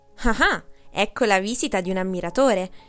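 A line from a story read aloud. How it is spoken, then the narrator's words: Vain man shouting from afar. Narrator (Italian): gridò da lontano il vanitoso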